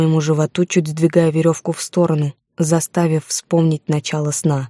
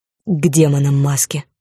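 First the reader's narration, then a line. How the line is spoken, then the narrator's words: Near growl. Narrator (Russian): почти прорычал Орман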